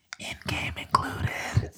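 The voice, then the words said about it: Whispered line. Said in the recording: “I'm going to whisper this into the wind”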